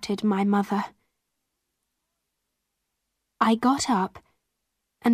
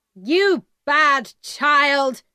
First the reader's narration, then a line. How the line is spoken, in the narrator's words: my mother shouted